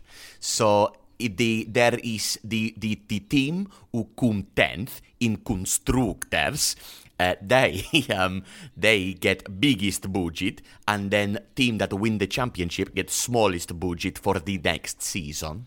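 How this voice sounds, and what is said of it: Speaks in a put-on accent. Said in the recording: “I think you should talk in this accent forever”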